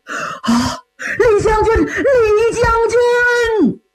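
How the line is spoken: Sobbing bitterly. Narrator (Chinese): 赵匡胤痛哭失声啊

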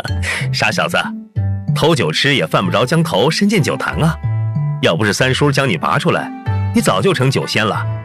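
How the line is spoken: Laughing loudly. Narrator (Chinese): 方南听了也大笑

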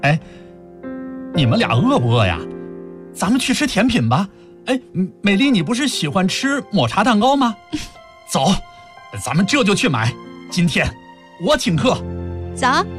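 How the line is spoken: Sudden loud voice. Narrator (Chinese): 他突然抬起头，大声说

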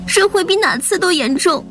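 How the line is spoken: Sobbing harder. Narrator (Chinese): 莹莹哭得更厉害了

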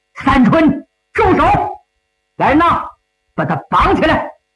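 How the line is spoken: Shouting. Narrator (Chinese): 陶虹高喊

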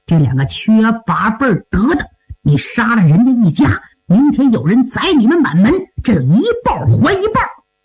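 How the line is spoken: Hateful muttering. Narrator (Chinese): 恨怨 咬牙切齿 不敢出声，嘴里嘟囔

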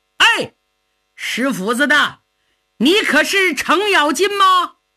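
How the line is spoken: Someone shouting loudly. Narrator (Chinese): 有人高喊

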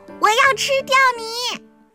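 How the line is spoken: Very loud shout. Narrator (Chinese): 他喊的声音大极了

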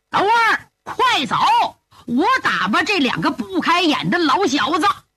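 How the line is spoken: Roaring. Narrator (Chinese): 斗笠大吼一声

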